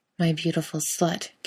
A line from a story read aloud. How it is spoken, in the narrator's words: Kate murmurs